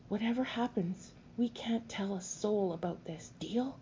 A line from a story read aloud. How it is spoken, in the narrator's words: said softly